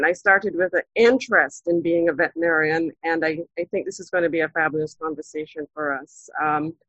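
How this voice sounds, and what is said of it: Slight Jamaican lilt. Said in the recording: “a little bit of a lilt ... I'm Jamaican by birth”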